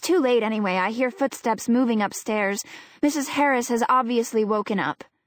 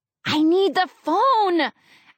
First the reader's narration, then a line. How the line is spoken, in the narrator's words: Allie hisses back